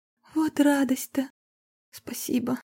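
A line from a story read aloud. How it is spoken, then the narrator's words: Trembling whisper. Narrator (Russian): Дрогнувшим голосом прошептала Марина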